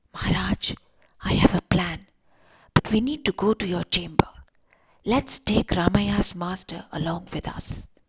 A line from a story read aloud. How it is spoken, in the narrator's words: went closer to the king and whispered